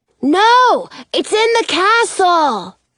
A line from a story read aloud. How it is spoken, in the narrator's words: Jonah shouts down